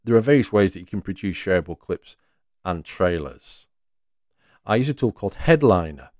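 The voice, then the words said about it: Northeast English accent. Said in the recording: “I'm from the northeast of England ... my words and accent”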